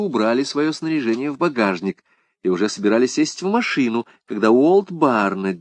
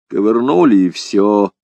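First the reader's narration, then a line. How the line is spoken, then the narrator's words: Grumbling mutter. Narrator (Russian): буркнул он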